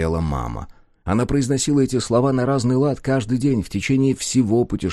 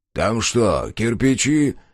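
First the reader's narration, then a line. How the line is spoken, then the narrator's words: Grumbling. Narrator (Russian): пробурчал он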